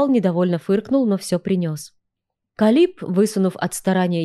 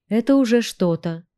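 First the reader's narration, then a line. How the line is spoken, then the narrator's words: Encouraging. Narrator (Russian): воодушевила я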